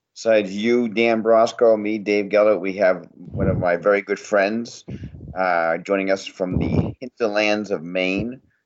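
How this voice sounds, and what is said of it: Maine accent. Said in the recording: “an amazing Maine accent”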